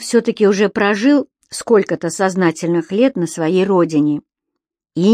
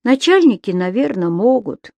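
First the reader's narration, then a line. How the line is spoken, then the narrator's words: Sighing. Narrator (Russian): вздохнул мячик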